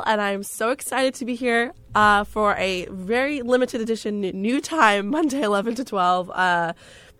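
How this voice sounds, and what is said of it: Croaky, strained voice. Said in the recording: “my voice is horrible ... I took full advantage of my voice, so now it's kind of croaky”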